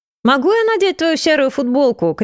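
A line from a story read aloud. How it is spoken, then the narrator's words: Shouted from another room. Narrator (Russian): крикнула из комнаты Мириам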